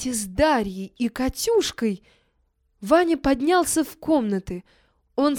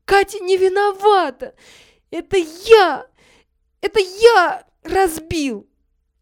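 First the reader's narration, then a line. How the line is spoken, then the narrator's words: Repeating through sobs. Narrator (Russian): Ваня сквозь рыдание повторял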